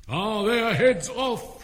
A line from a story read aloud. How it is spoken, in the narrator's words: shouted the Queen